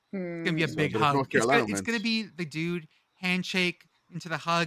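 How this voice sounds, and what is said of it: Usual voice. Nothing is said of it.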